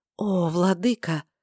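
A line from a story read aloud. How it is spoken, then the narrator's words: Fading whisper. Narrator (Russian): замирающий шепот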